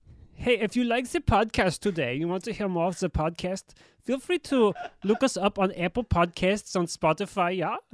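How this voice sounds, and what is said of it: Put-on German accent. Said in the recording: “Let's do the German. ... That's a hard name to say with the accent.”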